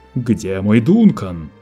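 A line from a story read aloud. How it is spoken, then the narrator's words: Roared. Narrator (Russian): проревел Лето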